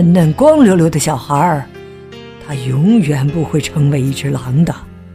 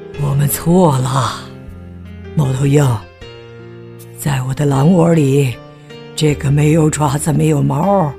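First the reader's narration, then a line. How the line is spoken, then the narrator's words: Sighing. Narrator (Chinese): 狼叹了口气，说道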